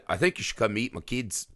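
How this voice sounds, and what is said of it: Colin Farrell accent, New Zealand-ish. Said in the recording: “That was my attempt at Colin Farrell's accent. I know, I nailed it. ... Sort of New Zealand-y.”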